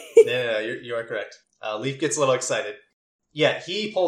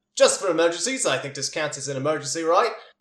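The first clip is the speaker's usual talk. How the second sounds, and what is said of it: Put-on Cockney or Australian character voice. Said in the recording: “Got a little bit of Cockney in him, been working on his different accent ... A little Australian is what I heard.”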